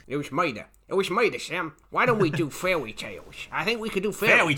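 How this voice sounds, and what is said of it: Put-on Chicago gangster accent. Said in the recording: “We could do Chicago gangster accents. ... I think now you're just doing Elmer Fudd.”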